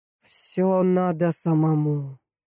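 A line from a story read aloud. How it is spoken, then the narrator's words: Drawl. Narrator (Russian): протянул начальник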